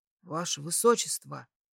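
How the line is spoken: Quiet call. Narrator (Russian): Тихо окликнул меня Говард

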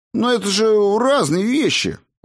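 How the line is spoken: Indignant exclamation. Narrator (Russian): воскликнул я возмущенно

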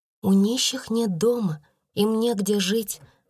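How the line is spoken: Plain. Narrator (Russian): сказала она

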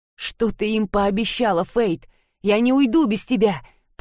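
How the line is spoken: Growl. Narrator (Russian): прорычал Джейкон

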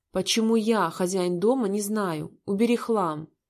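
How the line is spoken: Barking. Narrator (Russian): Рявкнул

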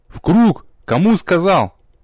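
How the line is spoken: Angry bark. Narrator (Russian): Зло рявкнул я

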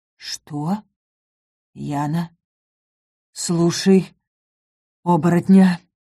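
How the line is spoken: Hoarse rasp. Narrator (Russian): прохрипел Ингар

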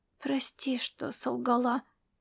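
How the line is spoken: Quiet addition. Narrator (Russian): тихо добавила она

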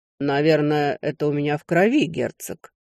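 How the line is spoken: Calm reply. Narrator (Russian): ответил некромант спокойно

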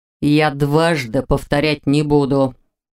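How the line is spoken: Near growl. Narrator (Russian): чуть ли не прорычал Рен

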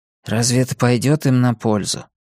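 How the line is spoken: Quiet, rueful. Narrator (Russian): Блоха сокрушенно тихо сказал

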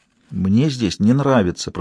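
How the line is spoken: Whispered. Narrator (Russian): прошептала она

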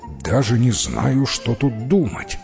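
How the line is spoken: Muttering. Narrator (Russian): пробормотал король

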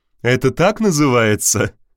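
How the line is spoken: Laughing. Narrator (Russian): рассмеялась Валитара

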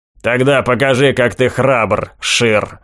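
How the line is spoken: Sarcastic growl. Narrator (Russian): Язвительно прорычал Маклауд

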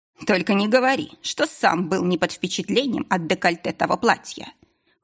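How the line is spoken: Snorting hmph. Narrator (Russian): хмыкнул Корин

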